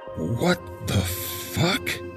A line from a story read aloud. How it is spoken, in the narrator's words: He stammered